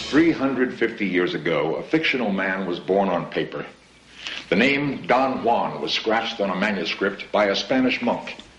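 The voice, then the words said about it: Dramatic narration voice. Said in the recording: “this is his dramatic voice in this episode ... Here's ... in his dramatic voice”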